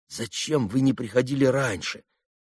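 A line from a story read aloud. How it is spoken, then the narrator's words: Reproachful voice. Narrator (Russian): таким голосом, с укором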